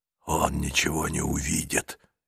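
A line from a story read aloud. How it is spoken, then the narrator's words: Whisper. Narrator (Russian): шепнул ей Нестор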